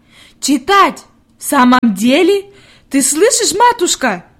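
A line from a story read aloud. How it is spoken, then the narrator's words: Shout. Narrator (Russian): крикнула она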